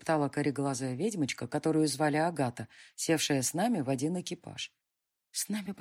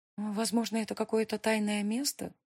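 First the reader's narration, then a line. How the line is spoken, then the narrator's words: Uncertain objecting witch. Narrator (Russian): неуверенно возразила еще одна ведьма по имени Хильда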